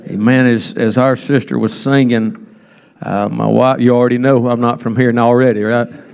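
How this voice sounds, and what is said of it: South Georgia Southern accent. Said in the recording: “he's not from around here. He's got that South Georgia accent”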